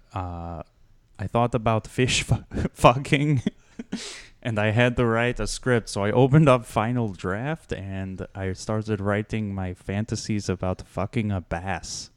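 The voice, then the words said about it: Spanish-accented celebrity voice impression. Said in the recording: “a Spanish accent ... That is how Guillermo del Toro sounds ... it was actually pretty good”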